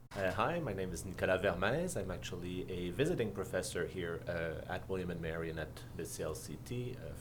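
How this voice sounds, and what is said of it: Quebec French accent in English. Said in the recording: “As you can tell from my accent, I am actually from Canada, from Quebec”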